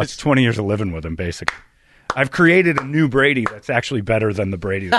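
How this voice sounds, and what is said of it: Usual voice. Nothing is said of it.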